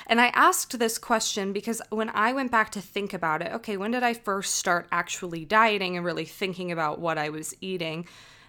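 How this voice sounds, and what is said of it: Scratchy throat, vocal fry. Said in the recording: “I think I have a little bit of a scratchy throat today ... vocal fry”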